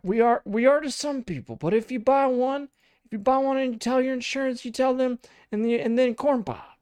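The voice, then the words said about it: Joe Biden impression. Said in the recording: “really great Joe Biden impression ... that one was very spot on”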